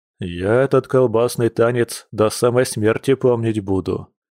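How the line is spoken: Gloomy. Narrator (Russian): мрачно добавил друг

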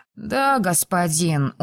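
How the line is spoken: Dejected boy repeating. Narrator (Russian): уныло повторил мальчик

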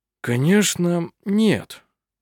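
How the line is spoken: Uncertain. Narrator (Russian): неуверенно произнес пастор

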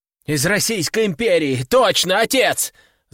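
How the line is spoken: Son's shout. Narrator (Russian): закричал сын

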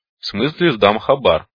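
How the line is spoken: Slightly irritated. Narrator (Russian): слегка раздраженно сказал Метла

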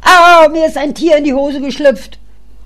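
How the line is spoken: Sudden child's scream. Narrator (German): plötzlich der kleine schreit

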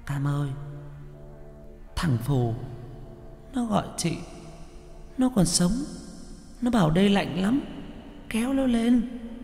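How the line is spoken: Trembling frightened voice. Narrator (Vietnamese): Con Quýt quay ra, giọng run run

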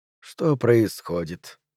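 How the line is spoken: Soft, slightly hoarse rustle. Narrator (Russian): прошелестел тихий, чуть хрипловатый голос

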